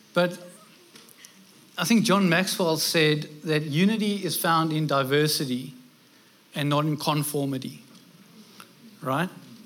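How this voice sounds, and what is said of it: Non-local foreign accent. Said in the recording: “clearly from my accent, you can hear I'm not local”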